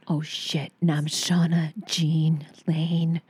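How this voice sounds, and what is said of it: Sultry porn-star style voice. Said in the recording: “You sound like a porn star.”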